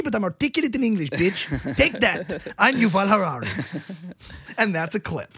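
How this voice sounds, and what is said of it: Israeli-accented impression of Yuval Harari. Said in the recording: “That's an amazing Israeli accent ... this is how he talks. It's very subtle, and it's even his R's are not so strong. You know, he does the American R, but it's subtle.”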